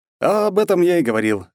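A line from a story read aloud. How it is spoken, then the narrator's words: Laughing young man. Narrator (Russian): рассмеялся молодой человек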